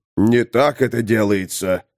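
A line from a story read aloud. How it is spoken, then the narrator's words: Growled. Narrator (Russian): зарычал Тулгорд Мудрый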